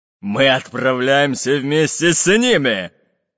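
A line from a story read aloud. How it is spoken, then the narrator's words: Menacing fat pirate. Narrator (Russian): Грозно сказал толстобрюхий пират Буль-Буль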